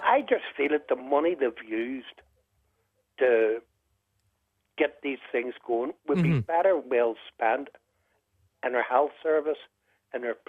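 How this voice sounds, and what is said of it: Regional accent from across the water. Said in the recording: “I can hear from your accent there, that you're from across the water”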